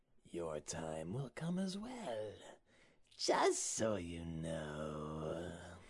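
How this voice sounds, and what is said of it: Scary, eerie character voice. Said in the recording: “you got a little bit of a scary voice there.”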